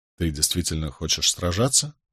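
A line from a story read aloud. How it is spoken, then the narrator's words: Quiet undertone question. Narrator (Russian): спросил я вполголоса, так, чтобы мой вопрос не достиг ушей кого-нибудь из наших соседей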